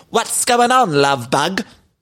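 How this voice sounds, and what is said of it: Aggressive English accent imitating Dorit. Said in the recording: “it was a very aggressive accent from Dorit that time ... Kathy called her the English woman”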